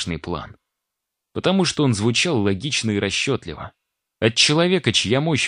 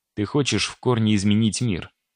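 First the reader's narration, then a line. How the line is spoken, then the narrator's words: Plain. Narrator (Russian): сказал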